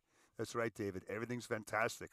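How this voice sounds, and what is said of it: Arnold Schwarzenegger impression. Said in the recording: “You're the guy that does my voice. ... we'll do an Arnold off”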